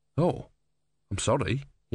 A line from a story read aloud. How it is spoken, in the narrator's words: muttered